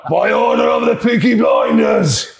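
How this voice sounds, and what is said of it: Put-on Birmingham accent, done well. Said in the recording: “Peaky Blinders accent... Birmingham... Oh, that's very good, mate.”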